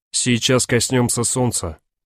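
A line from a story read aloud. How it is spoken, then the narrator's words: Calm. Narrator (Russian): командир корабля спокойно, за этим спокойствием миллионы километров пути, сказал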